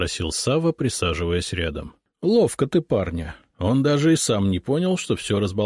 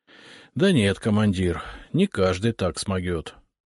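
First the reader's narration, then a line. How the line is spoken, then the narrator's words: Sighing. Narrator (Russian): вздохнул Сава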